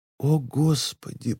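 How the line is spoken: Whispered. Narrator (Russian): прошептала она

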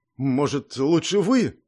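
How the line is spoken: Uncertain. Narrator (Russian): неуверенно сказал Гордей

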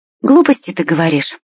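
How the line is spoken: Said, then laughing. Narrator (Russian): сказала Машка и рассмеялась

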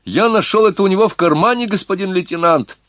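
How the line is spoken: Joyful shout. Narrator (Russian): Кто-то радостно крикнул

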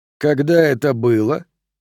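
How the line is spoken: Calm, hiding nerves. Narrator (Russian): спокойно спросил я, стараясь не выдать волнения

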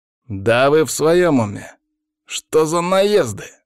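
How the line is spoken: Angry growl. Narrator (Russian): зарычал Павел, добавляя масло в огонь

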